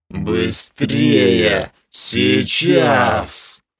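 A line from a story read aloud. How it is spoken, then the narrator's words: Furious hiss. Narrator (Russian): Яростно прошипела Снесса кобра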